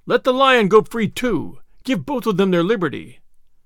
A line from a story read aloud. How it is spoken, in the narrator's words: Others cried